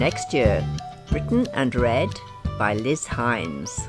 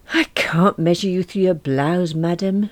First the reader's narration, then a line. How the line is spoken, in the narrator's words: sighed